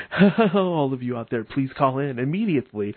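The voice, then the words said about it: Stereotypical radio announcer voice. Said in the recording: “I can talk like this from now on, in the stereotypical radio voice. ... Wouldn't that be totally annoying if I talked like this all the time?”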